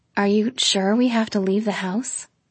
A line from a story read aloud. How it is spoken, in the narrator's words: He groaned